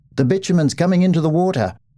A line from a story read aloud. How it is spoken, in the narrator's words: Suddenly, one shouted